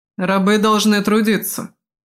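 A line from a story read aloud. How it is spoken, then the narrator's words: Stern statement. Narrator (Russian): строго сказал он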